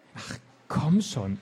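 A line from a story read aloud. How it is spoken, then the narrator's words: Panting knight, angry call. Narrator (German): rief der keuchende Ritter ärgerlich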